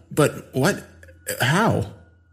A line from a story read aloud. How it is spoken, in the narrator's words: I stammered out